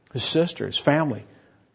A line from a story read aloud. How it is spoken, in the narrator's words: they murmured against him